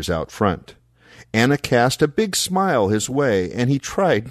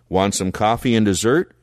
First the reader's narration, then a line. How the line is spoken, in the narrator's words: Shepherd asked